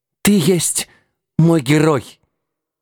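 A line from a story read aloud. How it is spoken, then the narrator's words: Admiring moan, queen mother. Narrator (Russian): восхищенно простонала матушка-царица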